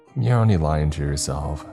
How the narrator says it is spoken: she said

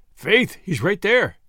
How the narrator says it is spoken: said McGinty grimly

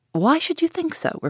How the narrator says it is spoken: replied he, with a sigh

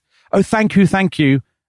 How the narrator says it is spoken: so overwhelmed by this that he shouts out

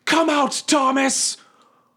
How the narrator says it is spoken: shouting

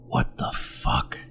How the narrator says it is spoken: whispered

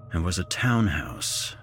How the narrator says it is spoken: I muttered to myself

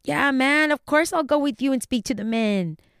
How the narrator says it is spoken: In his thick Mexican accent, he said

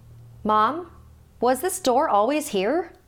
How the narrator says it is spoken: Melinda shouted down the stairs to her mom

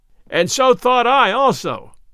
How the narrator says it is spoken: cried Robin Hood, shouting with laughter till the tears ran down his cheeks

